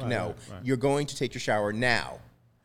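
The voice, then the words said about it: Stern dad voice. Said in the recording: “Nice dad voice ... if I was to hire him as a dad for a cartoon ... That's a dad voice?”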